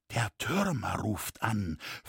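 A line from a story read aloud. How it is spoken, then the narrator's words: Ominous whisper. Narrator (German): flüsterte es ahnungsvoll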